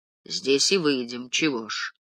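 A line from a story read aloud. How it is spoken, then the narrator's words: Gruff mutter. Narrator (Russian): буркнул Нестеренко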